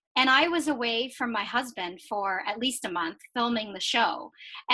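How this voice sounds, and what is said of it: Mixed Chinese, Jamaican, Canadian accent. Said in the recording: “my Chinese, Jamaican, Canadian accent”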